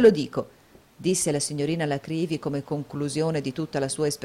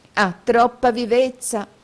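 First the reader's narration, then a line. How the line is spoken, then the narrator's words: Exclaiming. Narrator (Italian): esclamò la signorina Lacrivi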